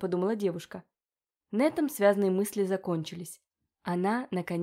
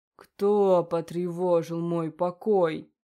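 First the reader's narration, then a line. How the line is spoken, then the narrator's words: Menacing growl. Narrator (Russian): прорычал он угрожающе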